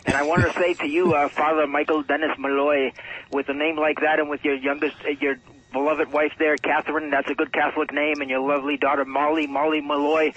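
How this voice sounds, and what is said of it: Exaggerated Irish brogue. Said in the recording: “back to my regular accent, I didn't mean to butcher the brogues there”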